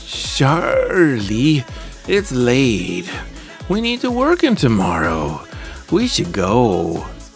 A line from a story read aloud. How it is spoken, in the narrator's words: she slurred in a drunken state